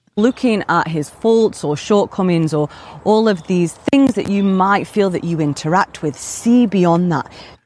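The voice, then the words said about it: Sultry British accent. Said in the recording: “sultry British accent”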